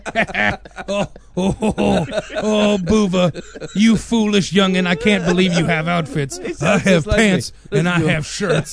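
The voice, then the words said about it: Imitates another person's voice. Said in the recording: “That's a dead on impersonation.”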